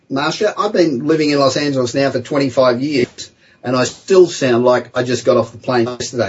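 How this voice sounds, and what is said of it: Australian accent. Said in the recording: “your Aussie accent”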